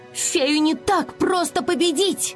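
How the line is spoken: Strained shout. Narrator (Russian): с трудом выкрикнула

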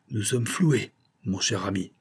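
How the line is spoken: Plain. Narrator (French): dit le chevalier

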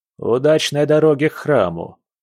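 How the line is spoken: Sarcastic shopkeeper remark. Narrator (Russian): язвительно заметил лавочник

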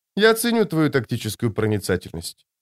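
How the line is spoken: Dry. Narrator (Russian): сухо ответила она

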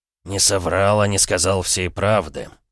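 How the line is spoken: Sigh. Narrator (Russian): вздохнул Захар Андреевич

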